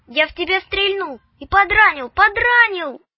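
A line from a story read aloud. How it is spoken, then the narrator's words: Nagging child's shout. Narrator (Russian): въедливо кричал Вовка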